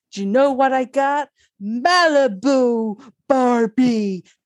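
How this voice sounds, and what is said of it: Imitates another person's voice. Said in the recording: “that impression, because that was a good impression. ... I was impressed with that.”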